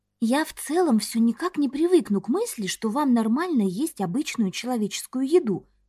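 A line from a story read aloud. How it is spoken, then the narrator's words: Polite whisper. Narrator (Russian): прошептала я из приличия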